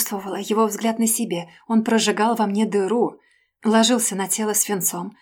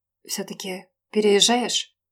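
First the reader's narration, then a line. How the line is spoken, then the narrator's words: Muffled, lost, detached voice. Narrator (Russian): Голос Жени звучал глухо, потерянно, отрешенно, будто из другого мира и через трубу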